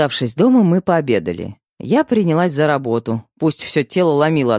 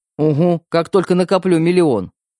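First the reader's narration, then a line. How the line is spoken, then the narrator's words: Snorting. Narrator (Russian): фыркнул брат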